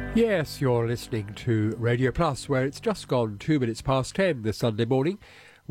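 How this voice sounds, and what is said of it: Congested voice with a cold. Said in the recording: “as you can probably tell from my voice, I've got a bit of a cold”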